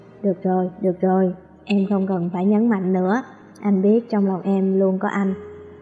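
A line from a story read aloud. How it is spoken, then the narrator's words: Soft laugh. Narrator (Vietnamese): Tần Mạc khẽ cười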